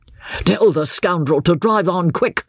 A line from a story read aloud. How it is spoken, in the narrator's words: shouted with an oath